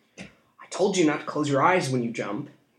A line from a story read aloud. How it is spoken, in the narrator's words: he said through gritted teeth